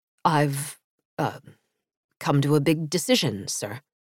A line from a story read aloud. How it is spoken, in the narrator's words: he said in a low voice